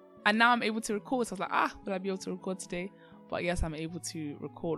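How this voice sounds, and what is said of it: Funny, off-sounding recovering voice. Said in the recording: “my voice is sounding a little bit funny. That's because I actually lost my voice ... It's still sounding a bit off, but it's starting to come back”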